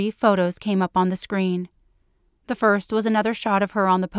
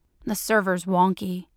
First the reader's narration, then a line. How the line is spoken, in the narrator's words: Evan grumbled